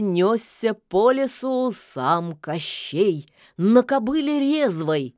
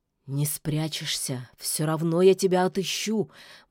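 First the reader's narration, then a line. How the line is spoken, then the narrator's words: Mutter. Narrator (Russian): бормотал он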